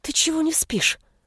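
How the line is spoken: Annoyed whispered complaint. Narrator (Russian): Шепотом посетовала, внутренне негодуя из-за того, что прошмыгнуть мимо уже не выйдет

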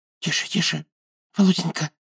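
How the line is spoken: Whispered plea. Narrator (Russian): взмолился шепотом Мелехин

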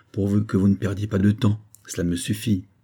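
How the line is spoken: Murmured. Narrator (French): murmura le capitaine Arundel

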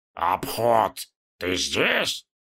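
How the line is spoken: Through gritted teeth. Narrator (Russian): процедил Шаб-Ниггурат

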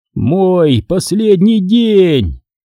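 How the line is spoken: Shout. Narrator (Russian): закричал я

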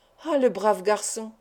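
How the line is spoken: Exclaimed. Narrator (French): s'écria le docteur

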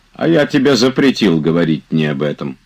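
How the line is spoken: Stern. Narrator (Russian): строго сказал Илья Ильич

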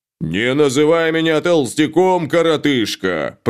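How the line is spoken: Growl. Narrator (Russian): прорычал Шталь

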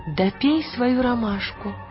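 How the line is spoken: Gentle. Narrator (Russian): мягко сказала миссис Колтер

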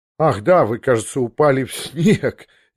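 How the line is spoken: Laughing. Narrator (Russian): он засмеялся

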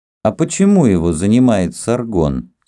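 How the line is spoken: Plain question. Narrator (Russian): спросил наследник

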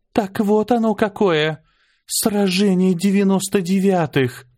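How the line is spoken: Breathless awed exhale. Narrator (Russian): выдохнула Аня

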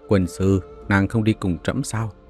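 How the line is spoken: Eager, laughing. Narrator (Vietnamese): hăng hái cười nói

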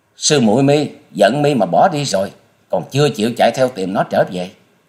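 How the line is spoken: Furious scream. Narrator (Vietnamese): Băng hồn tiên cơ tức tối thét lên

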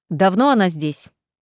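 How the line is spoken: Harsh bark. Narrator (Russian): рявкнул мужчина

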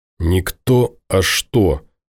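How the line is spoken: Hoarse, through teeth. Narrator (Russian): осипшим голосом процедил Ворожцов

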